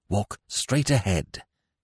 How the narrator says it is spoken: he directed, still in the same intense whisper

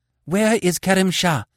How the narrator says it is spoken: she gasped, panting after her long run

